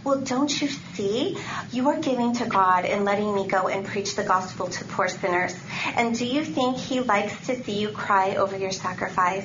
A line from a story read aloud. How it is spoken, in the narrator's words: he added tenderly